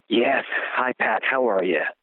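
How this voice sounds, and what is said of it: Whispering. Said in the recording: “Why are we whispering? ... I just want to keep my tone down”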